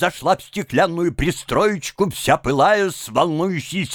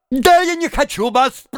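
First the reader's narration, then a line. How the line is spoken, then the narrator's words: Shouting. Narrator (Russian): прокричала тогда мадам Каплун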